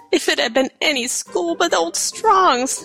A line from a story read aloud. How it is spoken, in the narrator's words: she sobbed